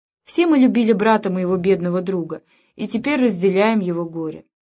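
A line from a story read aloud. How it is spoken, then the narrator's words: Calm. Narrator (Russian): спокойно произнесла она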